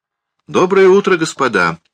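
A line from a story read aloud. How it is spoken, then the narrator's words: Cheerful greeting. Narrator (Russian): весело приветствовал привратник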